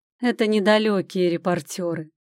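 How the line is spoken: Laughing. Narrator (Russian): засмеялся он

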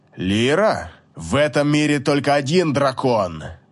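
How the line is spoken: Hiss. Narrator (Russian): Прошипел Гелиор

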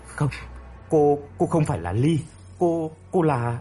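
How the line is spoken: Stammering. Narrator (Vietnamese): Hồng ấp úng

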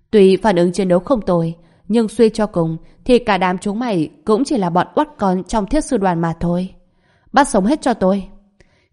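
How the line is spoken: Loud laughing. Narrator (Vietnamese): Phương Linh Lung bỗng cười to, cô ta há miệng nói

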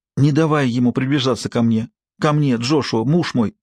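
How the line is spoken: Frightened pleading. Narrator (Russian): испуганно умоляла она

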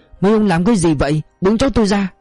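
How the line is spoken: Old woman yelling. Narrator (Vietnamese): Bà già lao tới ôm cháu giằng ra, miệng la lên

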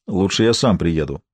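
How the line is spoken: Gloomy muttering. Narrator (Russian): мрачно буркнул халифа

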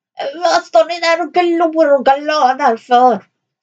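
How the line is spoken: Dwarf shouting. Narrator (Swedish): skrek dvärgen

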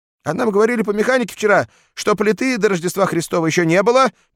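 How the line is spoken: Squeaky voice. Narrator (Russian): пискнул голос

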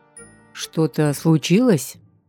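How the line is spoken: Wary question. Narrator (Russian): Не грозно, но опасливо спросил

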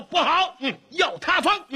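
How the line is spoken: Shouting. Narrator (Chinese): 有人喊道

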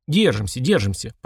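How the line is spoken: Dragon's grumble. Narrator (Russian): проворчал дракон

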